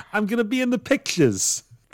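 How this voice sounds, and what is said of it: Put-on New York accent. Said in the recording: “All movie extras have a New York accent.”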